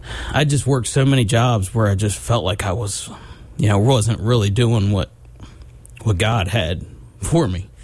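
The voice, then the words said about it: Emotional, choked-up voice. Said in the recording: “I get a little emotional talking about my story”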